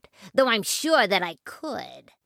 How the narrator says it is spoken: sneered the rat

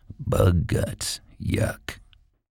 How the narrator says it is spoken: every time another bug went on the windshield, he muttered

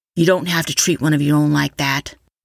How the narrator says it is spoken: Forrest said, his voice like steel

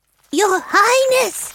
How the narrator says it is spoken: A small animal squeaked

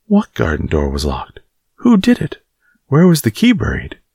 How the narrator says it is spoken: he exclaimed, as if he were suddenly very much interested

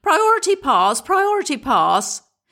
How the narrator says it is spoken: yelling

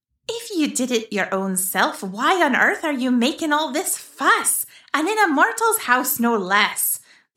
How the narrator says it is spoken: the adult fairy said in an exasperated tone

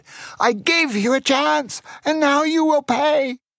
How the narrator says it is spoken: He shouted

